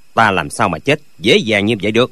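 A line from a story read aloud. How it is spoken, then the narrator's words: Cold voice. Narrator (Vietnamese): Lệnh Hồi Xung lạnh lùng nói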